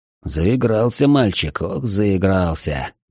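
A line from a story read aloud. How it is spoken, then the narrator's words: Muttering. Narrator (Russian): пробормотал Ашот Багдасарович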